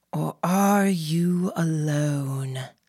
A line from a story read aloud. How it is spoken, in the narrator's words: the Baron purred